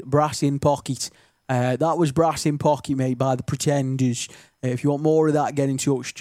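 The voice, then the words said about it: Stoke-on-Trent (Potteries) English accent. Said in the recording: “That was really stokey how I said that then ... my accent doesn't really slip out much on the radio, but that I just did ... with a stokey accent, is doing a stokey accent ... very distinctive, isn't it, our accent”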